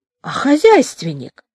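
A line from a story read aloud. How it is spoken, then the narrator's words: Indignant and delighted. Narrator (Russian): сказал Валько одновременно и возмущенно, и восторженно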